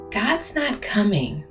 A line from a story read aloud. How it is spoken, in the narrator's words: she said it quietly